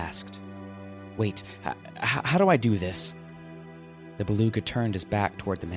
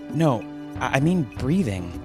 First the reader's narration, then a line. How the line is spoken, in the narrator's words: the man replied nervously